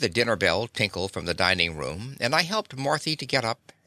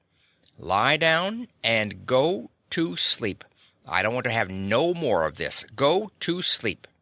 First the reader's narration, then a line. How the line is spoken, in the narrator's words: I says in the hard voice she wasn't acquainted with